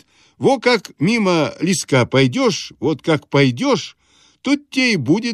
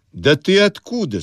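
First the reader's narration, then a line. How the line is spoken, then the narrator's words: Plain. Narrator (Russian): спросил я его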